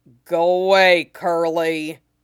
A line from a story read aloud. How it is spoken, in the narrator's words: Zoro rumbles